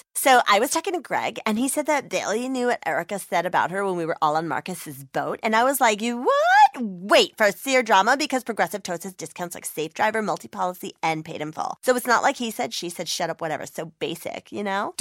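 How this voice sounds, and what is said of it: Imitates a reality TV star's voice. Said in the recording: “my impression of a reality TV star”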